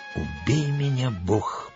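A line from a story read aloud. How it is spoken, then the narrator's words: Stunned whisper. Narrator (Russian): прошептал пораженный Джон Смит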